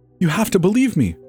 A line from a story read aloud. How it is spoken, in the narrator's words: Lauren pleads